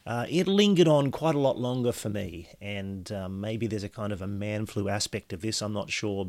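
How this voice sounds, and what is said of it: Slightly hoarse voice. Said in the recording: “You probably hear in my voice from time to time during this podcast that I'm still a little bit hoarse and a bit coughy”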